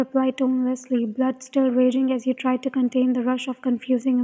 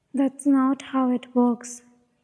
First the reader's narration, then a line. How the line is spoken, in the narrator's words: he said